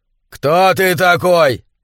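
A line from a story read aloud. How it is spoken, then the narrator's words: Shouted. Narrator (Russian): закричал он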